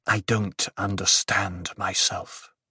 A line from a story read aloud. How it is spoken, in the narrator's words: he whispered